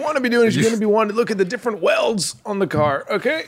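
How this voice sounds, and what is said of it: Announcer voice. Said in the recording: “you don't have to talk in your announcer voice all day”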